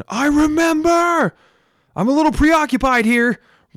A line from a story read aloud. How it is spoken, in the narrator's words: Lucia cried out to Rezin